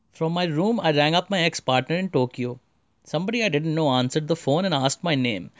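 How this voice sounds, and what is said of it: Indian English accent. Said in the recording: “this is my Indian accent”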